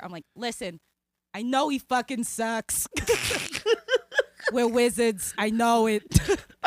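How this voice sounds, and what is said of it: Fake New Jersey accent. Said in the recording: “in a Jersey accent ... I fake a New Jersey accent”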